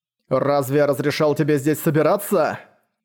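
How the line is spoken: Thundering booming voice. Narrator (Russian): прогремел его раскатистый голос

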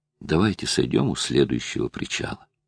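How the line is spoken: Quiet. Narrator (Russian): Филипп тихо произнес

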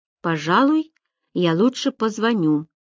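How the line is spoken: Plain. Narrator (Russian): сказал он

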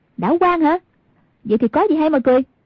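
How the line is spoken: Mildly annoyed shout. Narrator (Vietnamese): Hoàng Dung trong lòng hơi tức giận, quát lên

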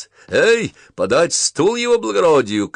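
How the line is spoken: Shouted. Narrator (Russian): крикнул он

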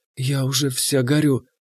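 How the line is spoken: Whisper in ear. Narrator (Russian): она шепнула мне в ухо

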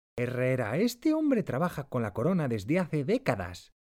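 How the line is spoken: Exclaimed. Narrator (Spanish): Pinzón exclama

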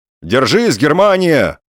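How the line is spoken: Encouraging shout. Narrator (Russian): поощрительно крикнул немцу Балаганов

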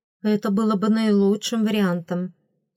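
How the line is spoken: Serious reply. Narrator (Russian): серьезно ответила старшая фрейлина

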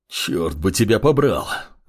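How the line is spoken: Hoarse rasp. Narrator (Russian): прохрипел неизвестный

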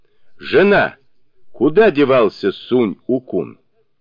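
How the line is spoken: Loud question. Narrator (Russian): Тогда он громким голосом спросил

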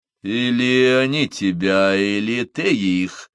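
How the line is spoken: Through gritted teeth. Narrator (Russian): процедил сквозь зубы Смэдж

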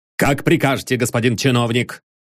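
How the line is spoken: Irritated official reply. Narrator (Russian): раздраженно ответил пристав

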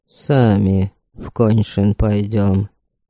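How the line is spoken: Quiet, secretive. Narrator (Russian): тихо сказал он Ваяти, когда никто не мог их слышать

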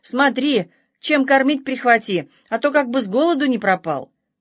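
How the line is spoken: Calling out after someone. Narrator (Russian): бабушка крикнула ей вслед

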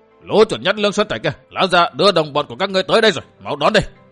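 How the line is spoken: Loud shout. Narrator (Vietnamese): Dương Tiểu Vũ quát to

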